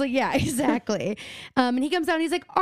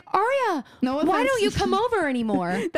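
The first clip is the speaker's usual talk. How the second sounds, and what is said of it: Good imitation of a character's voice. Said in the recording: “That was a really good Malcolm impression.”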